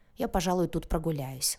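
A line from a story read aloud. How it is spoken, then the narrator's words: Grumbled reply. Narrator (Russian): буркнула в ответ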